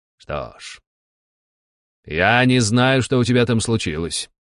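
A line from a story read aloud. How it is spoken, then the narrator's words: Plain. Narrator (Russian): сказал Константин Аскарович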